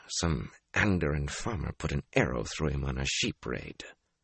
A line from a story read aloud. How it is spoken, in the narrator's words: muttered